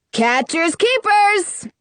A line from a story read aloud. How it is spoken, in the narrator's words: he yells